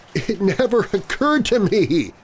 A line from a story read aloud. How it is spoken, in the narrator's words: he sobbed